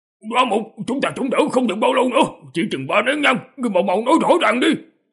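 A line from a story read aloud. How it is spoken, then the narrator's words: Low urgent bark. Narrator (Vietnamese): một trong 9 tu sĩ giữ pháp khí thấp giọng quát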